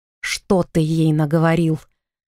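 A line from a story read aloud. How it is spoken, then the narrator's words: Young man growling. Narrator (Russian): прорычал молодой мужчина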